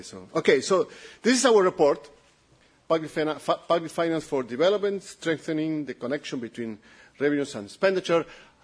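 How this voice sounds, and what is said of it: Italian accent. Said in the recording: “my Italian accent ... So I will speak a little bit slowly.”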